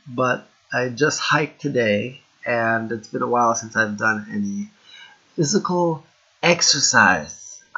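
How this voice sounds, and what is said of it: Rough, sick-sounding voice. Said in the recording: “I'm still sick, so my voice is a little bit rough.”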